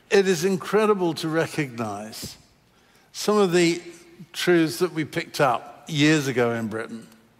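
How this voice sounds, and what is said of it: British accent. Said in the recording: “I love telling old stories of Britain years and years ago, even though we left it 26 years back. I can't get rid of the accent even now.”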